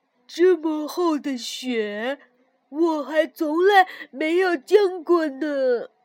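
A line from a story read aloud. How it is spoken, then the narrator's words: Amazed exclamation. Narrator (Chinese): 跳跳惊叹道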